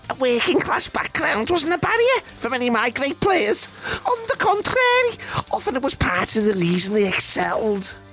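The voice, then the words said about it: Reading excerpts in a put-on accent. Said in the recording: “The accent may or may not be a red herring.”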